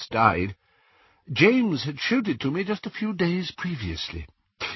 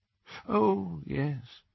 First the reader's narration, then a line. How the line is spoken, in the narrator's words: said Dumbledore faintly